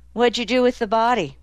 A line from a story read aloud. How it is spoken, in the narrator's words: He sighed